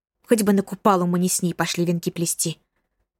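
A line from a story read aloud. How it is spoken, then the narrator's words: Whisper. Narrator (Russian): зашептала подруга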